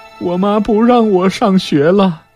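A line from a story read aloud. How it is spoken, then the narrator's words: Crying. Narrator (Chinese): 元贞……哭着说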